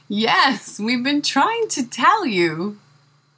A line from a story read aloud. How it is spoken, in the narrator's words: My parents laughed with excitement and said in unison